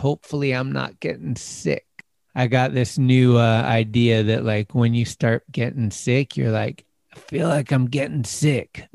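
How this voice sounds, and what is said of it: Slightly hoarse voice. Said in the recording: “the voice is getting a little hoarse”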